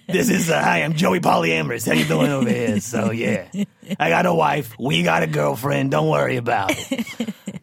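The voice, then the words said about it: Brooklyn Bensonhurst character voice. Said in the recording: “That's an impersonation of a polyamorous person from Bensonhurst.”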